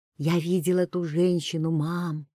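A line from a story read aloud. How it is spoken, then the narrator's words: Quiet. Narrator (Russian): тихо сказала Лена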